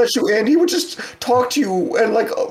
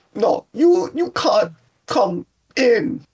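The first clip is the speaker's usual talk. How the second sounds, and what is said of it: Yondu impression with random pauses. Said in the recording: “random pauses in his speech ... my Yondu impersonation ... That was pretty good, actually ... nailed it”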